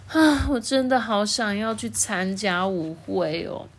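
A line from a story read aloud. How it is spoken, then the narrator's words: Sighing. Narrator (Chinese): 艾拉叹了一口气说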